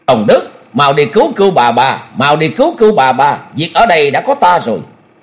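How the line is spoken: Shouting while retreating. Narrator (Vietnamese): Ngao Trường Thanh vừa thoái hậu vừa hét lớn

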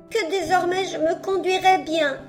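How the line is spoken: Sobbing puppet reply. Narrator (French): répondit entre deux sanglots la marionnette

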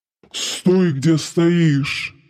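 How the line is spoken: Dragon barking. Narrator (Russian): рявкнул дракон

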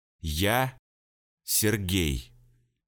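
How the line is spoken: Slow, syllable by syllable. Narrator (Russian): Представился медленно, чуть ли не по слогам

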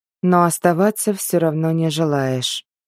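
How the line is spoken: Sad sigh. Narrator (Russian): печально вздохнул Мэл

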